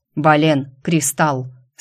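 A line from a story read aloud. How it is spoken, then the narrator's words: Calm command. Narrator (Russian): спокойно распорядился Энрике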